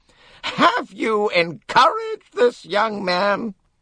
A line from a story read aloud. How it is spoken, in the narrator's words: said Miss Van Schuyler, and her voice was truly awful in quality